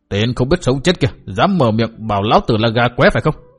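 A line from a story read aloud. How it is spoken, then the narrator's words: Furious shouting. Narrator (Vietnamese): Túc Xá giận dữ như khùng, quát tháo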